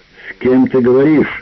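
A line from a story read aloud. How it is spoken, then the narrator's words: Shout from another room. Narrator (Russian): закричал Мортимер из гостиной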